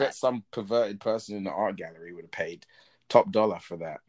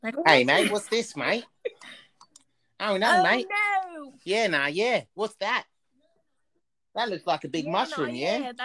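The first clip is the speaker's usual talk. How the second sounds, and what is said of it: Put-on New Zealand accent. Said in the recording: “What's a Kiwi accent?... I'm good at accents... I'm not good at accents.”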